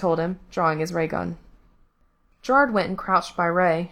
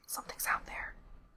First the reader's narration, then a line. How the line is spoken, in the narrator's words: he whispered